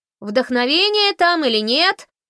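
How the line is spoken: Shouting. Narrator (Russian): закричала Фанни

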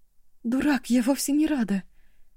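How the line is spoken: Sad objection. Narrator (Russian): печально возразила Эва

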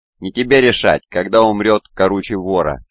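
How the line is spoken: Plain. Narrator (Russian): сказал мечник

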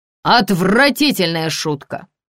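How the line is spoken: Thundering voice. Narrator (Russian): прогремела в комнате

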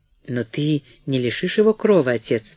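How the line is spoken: Moaning plea. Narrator (Russian): стонала миссис Броуди

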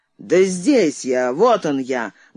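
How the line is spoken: Loud bark. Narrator (Russian): гаркнул знакомый голос

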